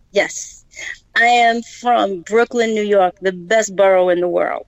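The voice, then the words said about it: Brooklyn New York accent. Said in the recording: “I could hear that accent in your voice”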